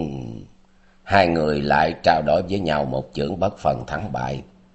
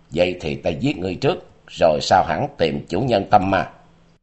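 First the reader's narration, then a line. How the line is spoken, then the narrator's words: Menacing growl. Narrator (Vietnamese): Tình Hải Ma Tử gằn giọng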